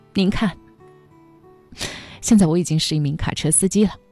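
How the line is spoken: Choked-up, tearful. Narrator (Chinese): 哽咽着说

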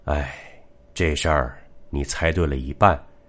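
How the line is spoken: Answering with a soft sigh. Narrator (Chinese): 八爷轻叹一口气，回答

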